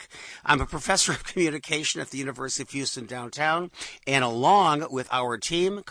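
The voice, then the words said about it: Raspy, hoarse voice from illness. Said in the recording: “raspy voice because I'm dying in here. So don't think I have a sexy voice. ... I'm just sick.”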